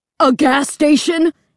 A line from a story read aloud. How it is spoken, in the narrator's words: Dad screamed